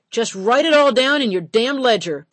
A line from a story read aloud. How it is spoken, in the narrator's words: Paddy hollered